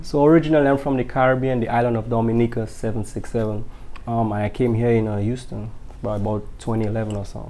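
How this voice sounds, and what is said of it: Deep, strong Caribbean accent. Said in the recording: “I hear a deep accent... You still have a very, very strong accent.”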